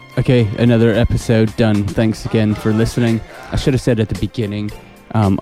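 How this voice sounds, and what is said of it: Unusually deep, congested voice. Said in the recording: “I've got a cold, so my voice is a little bit stranger than normal. I've got like this extra octave thing going on.”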